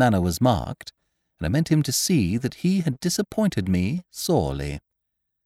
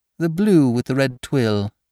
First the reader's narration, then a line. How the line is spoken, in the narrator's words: I said coldly